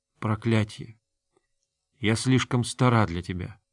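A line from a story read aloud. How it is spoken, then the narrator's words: Whispered. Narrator (Russian): она прошептала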